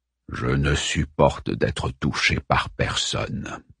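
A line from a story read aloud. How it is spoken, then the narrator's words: Low voice. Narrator (French): dit Prospero à voix basse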